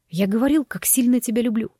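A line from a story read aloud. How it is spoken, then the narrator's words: Hoarse rasp. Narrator (Russian): прохрипел он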